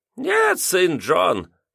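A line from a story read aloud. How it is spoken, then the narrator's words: Squeaky old man's voice. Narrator (Russian): пропищал старик, заметив, как я расстроен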